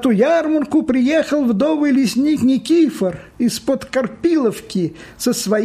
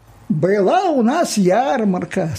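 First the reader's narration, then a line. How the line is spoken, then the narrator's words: Plain. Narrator (Russian): сказала Маня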